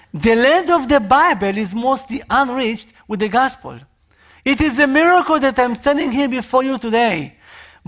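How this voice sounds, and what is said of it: Israeli accent. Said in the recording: “Can you hear my accent? ... I am from Israel”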